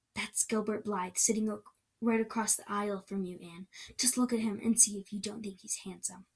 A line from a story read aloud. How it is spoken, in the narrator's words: whispered